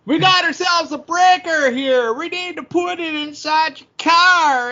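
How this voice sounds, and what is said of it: Clint Howard impression. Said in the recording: “Pretty good Clint Howard impression you do.”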